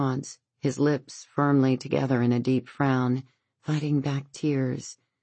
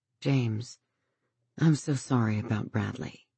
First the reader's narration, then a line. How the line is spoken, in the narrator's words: She begins gently